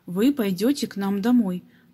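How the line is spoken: Plain. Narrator (Russian): так сказал папа

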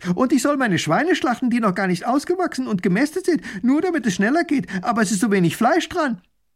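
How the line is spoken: Called out. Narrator (German): Ein anderer ruft

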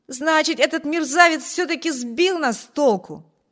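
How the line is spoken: Exclamation. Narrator (Russian): воскликнул Виберт

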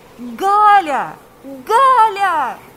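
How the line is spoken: Shouting. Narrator (Russian): кричал Павел

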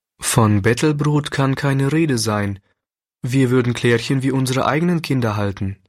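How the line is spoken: Plain. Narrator (German): sagte der Pastor

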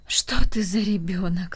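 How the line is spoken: Sighing grandmother. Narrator (Russian): вздохнула бабушка

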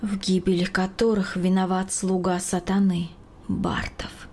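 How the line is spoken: Quiet pensive repetition. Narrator (Russian): В задумчивости она тихо повторяла

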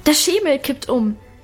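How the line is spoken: Shouting. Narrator (German): schrie Alwine

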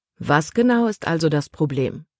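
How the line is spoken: Plain. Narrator (German): fragte Kapitän Norstad

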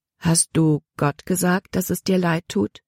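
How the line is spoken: Plain. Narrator (German): fragte Oma

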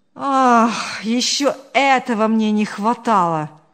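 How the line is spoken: Sighing. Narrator (Russian): вздохнул Павел

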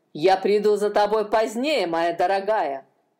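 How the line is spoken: Malicious. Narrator (Russian): злобно сказал один

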